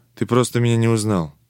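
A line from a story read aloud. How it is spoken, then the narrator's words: Soft and quiet. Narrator (Russian): посвященный говорил мягко и тихо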